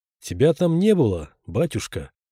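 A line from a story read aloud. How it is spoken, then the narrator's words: Affectionate, smiling. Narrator (Russian): ласково улыбнулся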